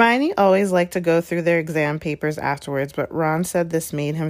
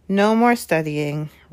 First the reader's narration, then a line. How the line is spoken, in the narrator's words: Ron sighed happily